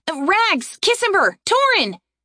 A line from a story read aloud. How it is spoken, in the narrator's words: Aaron called out